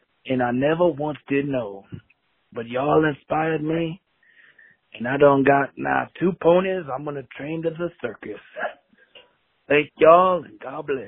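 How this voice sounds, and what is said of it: Noticeable regional accent. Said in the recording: “I like the accent. ... I love that accent.”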